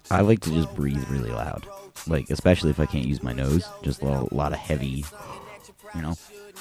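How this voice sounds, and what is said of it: Congested, deep sonorous voice. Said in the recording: “It's allergy season. ... That's why I sound, my voice is so sonorous today.”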